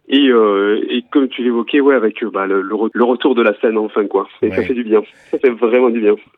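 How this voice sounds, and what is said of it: Southwestern French accent. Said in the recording (French): “ce petit accent du Sud-Ouest qui nous est bien familier”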